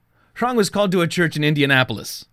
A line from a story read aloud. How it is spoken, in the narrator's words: Biak exclaimed